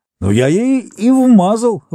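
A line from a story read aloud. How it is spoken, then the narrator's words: Shout. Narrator (Russian): выкрикнул Бикс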